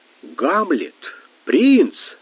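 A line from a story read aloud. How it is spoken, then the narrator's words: Exclamation. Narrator (Russian): воскликнул Лев Христофорович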